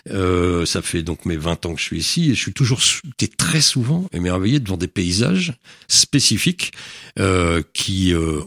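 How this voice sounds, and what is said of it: Non-local accent, not from Avignon. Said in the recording (French): “comme chacun peut s'en rendre compte à mon accent, je ne suis pas avignonnais”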